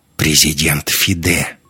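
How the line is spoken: Mocking reply with a grunt. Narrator (Russian): Алексей хмыкнул, насмешливо ответил

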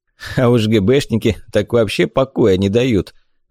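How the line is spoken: Laughing. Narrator (Russian): засмеялся отец

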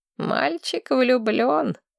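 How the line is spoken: Sighed, old man. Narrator (Russian): вздохнул старик

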